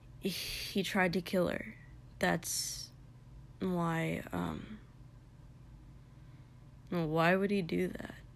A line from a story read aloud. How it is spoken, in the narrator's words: Kotsky asked quietly